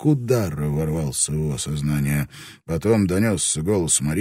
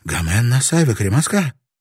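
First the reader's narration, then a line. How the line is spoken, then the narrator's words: Breathed out. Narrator (Russian): выдохнула она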